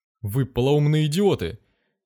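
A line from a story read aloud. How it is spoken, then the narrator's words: Shouting with full force. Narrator (Russian): закричал он изо всех сил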